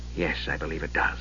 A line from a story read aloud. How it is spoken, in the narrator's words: Raceland murmured